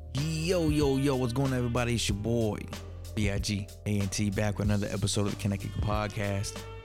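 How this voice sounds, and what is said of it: Radio announcer voice. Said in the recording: “I got my radio announcer voice going.”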